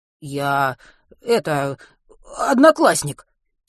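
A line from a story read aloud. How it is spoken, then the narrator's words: Hoarse mumble, holding back cough. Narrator (Russian): сипло пробормотал он, сдерживая кашель, по-прежнему рвущийся из горла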